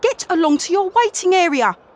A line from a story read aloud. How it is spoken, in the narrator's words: snapped the tin opener